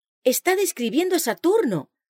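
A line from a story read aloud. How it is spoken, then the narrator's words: Exclaiming. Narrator (Spanish): El pastor Bates exclamó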